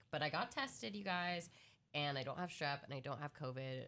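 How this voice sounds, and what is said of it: Sick, congested-sounding voice. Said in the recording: “I'm a little sicky Vicky right now. If you can't tell by my voice,”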